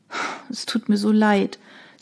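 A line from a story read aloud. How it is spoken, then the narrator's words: Sighed. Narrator (German): seufzte Emilia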